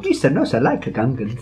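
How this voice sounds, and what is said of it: Gungan character voice impression. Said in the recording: “quite a good impression... It was actually a scary impression”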